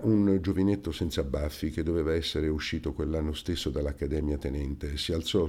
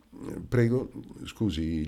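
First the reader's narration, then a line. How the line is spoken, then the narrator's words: Breathless broken voice. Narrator (Italian): con voce rotta dall'affanno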